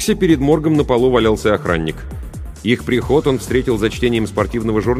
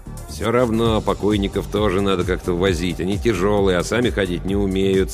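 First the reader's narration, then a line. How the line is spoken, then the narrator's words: Grumpy muttering. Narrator (Russian): сварливо бормотал Йонс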